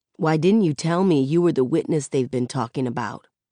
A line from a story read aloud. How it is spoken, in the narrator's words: He asks it softly, but it's hard as a sucker punch in the gut